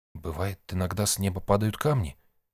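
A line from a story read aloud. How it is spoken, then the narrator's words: Quiet. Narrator (Russian): тихо сказал Сид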